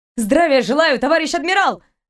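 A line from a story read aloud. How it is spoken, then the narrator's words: Barked. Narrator (Russian): рявкнула она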